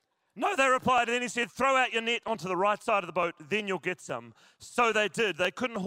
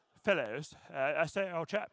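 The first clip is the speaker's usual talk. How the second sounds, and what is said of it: Put-on British accent. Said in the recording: “Is it like the British ... Jesus with a British accent”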